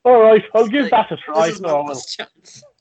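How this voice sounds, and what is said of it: Put-on Irish accent. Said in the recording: “a little um, example of my own acting range there with my Irish accent.”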